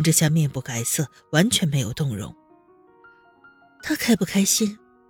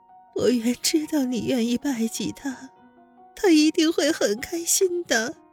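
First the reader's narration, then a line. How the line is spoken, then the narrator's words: Weak, tearful. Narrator (Chinese): 玉红柔柔弱弱的哭着说道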